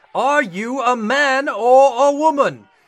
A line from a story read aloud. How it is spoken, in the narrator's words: the veins in the captain's forehead bulged as he boomed